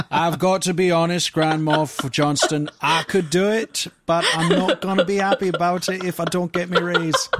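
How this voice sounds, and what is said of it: Put-on Yorkshire accent. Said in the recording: “Accent is that supposed to be? ... Yorkshire. ... Exactly how people in Yorkshire sound to me.”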